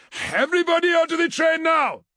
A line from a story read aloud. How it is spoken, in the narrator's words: barked Okoye